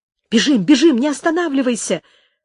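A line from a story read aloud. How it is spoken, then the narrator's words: Firm commanding exclamation. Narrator (Russian): воскликнула твердым повелительным тоном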